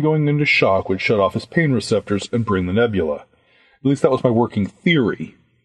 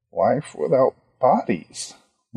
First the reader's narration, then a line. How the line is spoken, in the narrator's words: Ronnie muttered